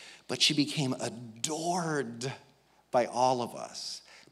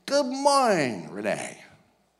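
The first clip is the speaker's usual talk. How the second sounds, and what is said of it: Imitated cerebral palsy speech. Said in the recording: “you could barely understand her because of the effects of the disease ... like that cerebral palsy accent”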